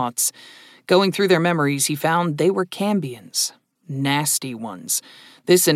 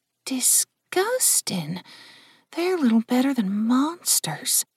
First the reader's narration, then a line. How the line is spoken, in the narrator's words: Jill muttered